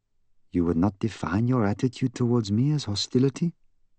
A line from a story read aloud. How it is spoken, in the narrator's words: inquired in an even tone